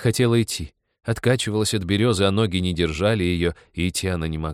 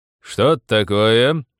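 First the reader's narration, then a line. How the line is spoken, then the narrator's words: Loud question from behind. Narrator (Russian): громко спросил кто-то сзади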